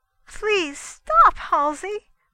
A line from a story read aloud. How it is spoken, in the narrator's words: pleaded Mrs